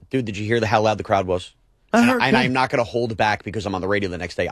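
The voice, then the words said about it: Hoarse, strained voice. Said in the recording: “are you sick or just hoarse? ... this is not sick.”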